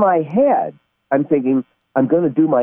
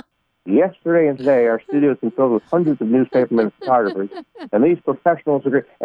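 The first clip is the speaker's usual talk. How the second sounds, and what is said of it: Imitates a TV host's voice. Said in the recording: “my Ed Sullivan impression”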